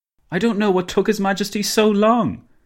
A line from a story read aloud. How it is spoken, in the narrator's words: Dinglebrush exclaimed